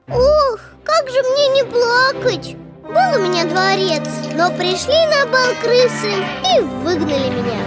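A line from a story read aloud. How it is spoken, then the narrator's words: Sighing reply. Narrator (Russian): вздохнул король и отвечает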